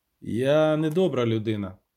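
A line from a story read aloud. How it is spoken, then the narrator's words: Loud interruption. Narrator (Ukrainian): голосно перебив Геральт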